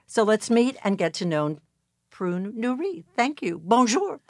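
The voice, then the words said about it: French-accented pronunciation. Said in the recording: “Beautiful accent to tell my name in French.”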